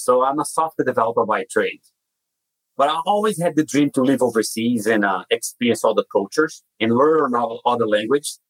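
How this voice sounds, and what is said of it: Brazilian accent. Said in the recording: “As you can tell by my accent, I was not born in the US. I'm originally from Brazil”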